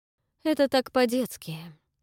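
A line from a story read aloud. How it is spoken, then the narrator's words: Sighing aunt. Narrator (Russian): вздохнула тетя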